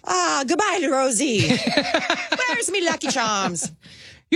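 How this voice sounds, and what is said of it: Attempted Irish accent, pirate-like. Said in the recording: “I don't do an Irish accent ... no, I don't either. Usually it turns into sort of pirate.”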